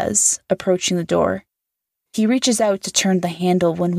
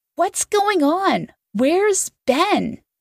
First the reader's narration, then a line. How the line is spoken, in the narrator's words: Ava shouts